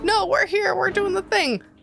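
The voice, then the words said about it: Imitates a character's voice. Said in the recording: “That's a good Mud impression.”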